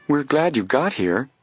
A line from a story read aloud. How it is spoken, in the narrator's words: Isla added warmly